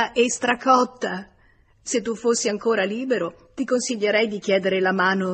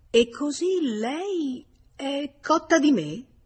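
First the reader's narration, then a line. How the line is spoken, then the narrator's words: Murmured. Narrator (Italian): George mormorò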